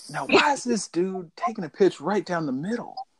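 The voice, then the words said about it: Poor imitation of another person's voice. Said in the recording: “terrible Except Snoop Dogg impression”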